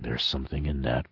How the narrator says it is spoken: Snout murmured

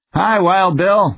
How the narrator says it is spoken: Strongheart yelled at sight of the big space hound

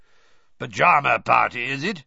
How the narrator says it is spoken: growled up the stairs

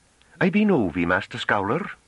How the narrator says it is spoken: she said in what was almost a gasp

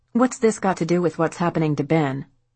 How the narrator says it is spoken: Diane snapped

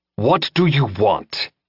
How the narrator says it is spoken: Jensen growled

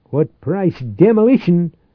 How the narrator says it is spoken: Atkins answered fiercely

